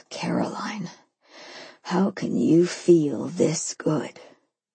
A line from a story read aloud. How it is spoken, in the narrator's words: I moaned